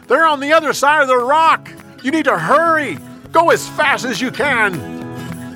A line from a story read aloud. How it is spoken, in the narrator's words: Jonathan yelled